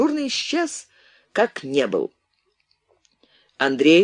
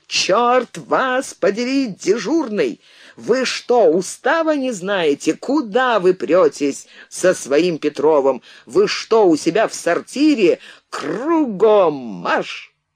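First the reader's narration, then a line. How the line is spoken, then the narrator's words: Ear-ringing furious yell. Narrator (Russian): Он заорал так, что у самого в ушах зазвенело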